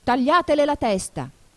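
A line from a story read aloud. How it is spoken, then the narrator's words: Screamed at full voice. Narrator (Italian): urlò la regina con quanta voce aveva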